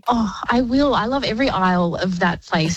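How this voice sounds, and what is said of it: Teary, emotional voice. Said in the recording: “I'm a bit teary now”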